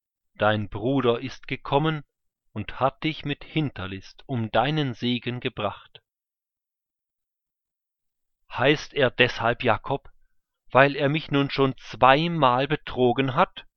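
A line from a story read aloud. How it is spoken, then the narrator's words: Plain. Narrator (German): sagte Esau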